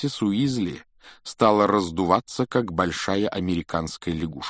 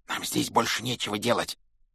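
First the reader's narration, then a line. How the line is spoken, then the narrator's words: Whisper. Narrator (Russian): прошептал Рон Гарри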